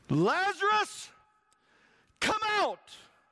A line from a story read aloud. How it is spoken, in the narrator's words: the shout